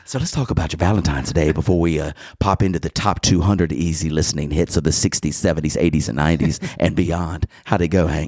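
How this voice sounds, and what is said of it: Cool, calm, smooth radio DJ voice. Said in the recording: “let's use our cool, calm, smooth voices ... I'll be the voice”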